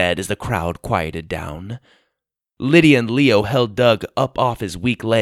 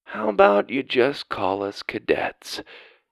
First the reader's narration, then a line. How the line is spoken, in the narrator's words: Doug suggested under his breath